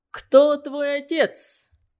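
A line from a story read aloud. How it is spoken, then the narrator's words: Young, resonant voice. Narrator (Russian): спросил меня незнакомец молодым звучным голосом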